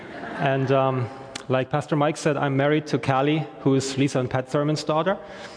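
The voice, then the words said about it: German-accented English. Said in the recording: “I am from Germany originally, which is why I don't have an Irish accent when I speak English.”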